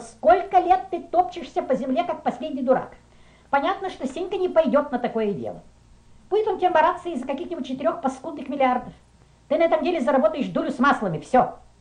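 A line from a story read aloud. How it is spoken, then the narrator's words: Woman shouting. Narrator (Russian): она закричала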